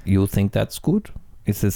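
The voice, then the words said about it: Weak attempt at French accent. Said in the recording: “is that your French accent? ... I can't do accents”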